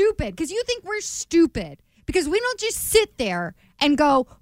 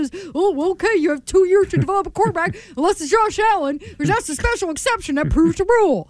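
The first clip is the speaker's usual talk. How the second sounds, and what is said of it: Imitates a generic sports pundit. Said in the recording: “was that an impression? ... Every freaking talking head is who that was.”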